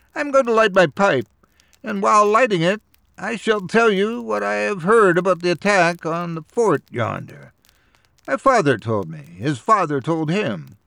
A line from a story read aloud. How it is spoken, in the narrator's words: he began in a shrill voice